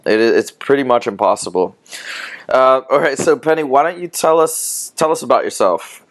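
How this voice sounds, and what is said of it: Dutch accent. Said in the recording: “I like the Dutch accent, actually. ... You like my Dutch accent?”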